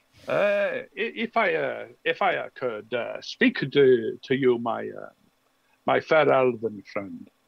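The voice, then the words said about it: Bad put-on Norse accent, sounds Italian. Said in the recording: “is he speaking with a French? ... Is he talking with a Bretonian accent? ... it's one my very bad accent. It's not from Bretonia. ... Is it Italian? ... He almost sounds Italian, maybe. ... It's trying to be a Norse accent.”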